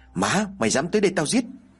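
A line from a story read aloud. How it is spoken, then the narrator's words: Angry speech. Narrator (Vietnamese): miệng giận dữ mà nói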